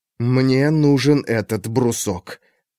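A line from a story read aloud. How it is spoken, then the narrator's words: Quiet. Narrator (Russian): тихо сказал Алексей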